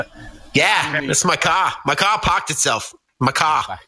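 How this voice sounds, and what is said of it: Put-on Boston accent. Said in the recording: “a Boston accent? ... Boston.”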